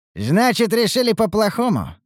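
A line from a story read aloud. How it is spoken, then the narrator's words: Smirking grunt. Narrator (Russian): хмыкнул Ругар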